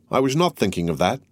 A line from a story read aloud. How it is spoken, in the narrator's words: replied Madame Danglars quickly